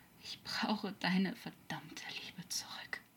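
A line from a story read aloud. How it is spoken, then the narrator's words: Weak murmur. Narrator (German): murmelte er kraftlos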